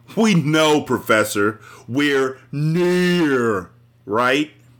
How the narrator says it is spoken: taunted Mouse, a diminutive spaniel

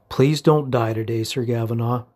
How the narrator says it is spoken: she said quickly

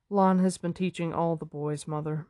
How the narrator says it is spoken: Moraine replied calmly

